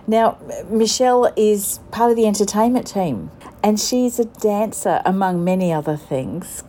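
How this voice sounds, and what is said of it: Australian accent. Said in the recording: “I recognise that accent, it's a fellow Australian”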